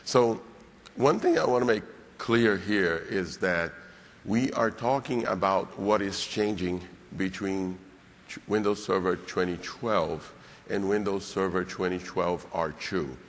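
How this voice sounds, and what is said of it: Rough, hoarse voice. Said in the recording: “my voice is a little rough, but I was much worse this morning”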